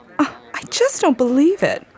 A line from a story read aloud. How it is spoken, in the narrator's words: The girl cried out